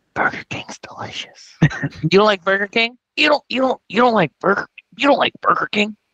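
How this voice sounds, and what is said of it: Whispered imitation of another person's voice. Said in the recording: “That's my Joe Biden whisper.”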